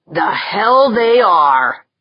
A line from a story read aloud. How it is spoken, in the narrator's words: Jaeger growled